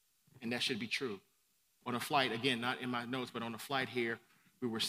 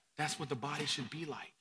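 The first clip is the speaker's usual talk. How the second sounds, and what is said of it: Whispering. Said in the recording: “I'm whispering”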